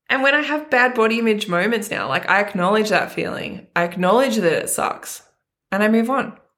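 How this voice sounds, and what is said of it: Teary, emotional voice. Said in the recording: “I'm a crier. I'm getting a little bit teary right now. This makes me emotional.”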